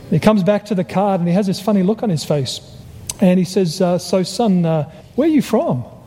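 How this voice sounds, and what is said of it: Australian accent. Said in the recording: “I'm originally from Australia, because he recognized my accent.”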